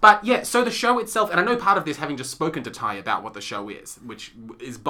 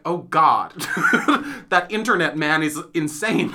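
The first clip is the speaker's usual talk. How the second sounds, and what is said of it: Imitates another person's voice and accent. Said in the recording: “God, that does sound just like him. That's really good. ... that's a pretty good accent. ... Pretty spot on.”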